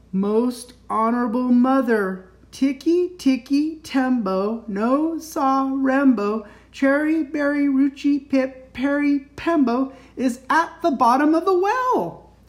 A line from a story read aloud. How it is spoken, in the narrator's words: took a deep breath, and slowly, very slowly, said